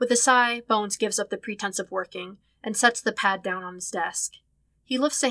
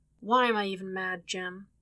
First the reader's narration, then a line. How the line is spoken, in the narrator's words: asks quietly